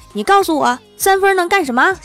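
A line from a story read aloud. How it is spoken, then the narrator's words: Angry roar. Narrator (Chinese): 对李逍遥一阵咆哮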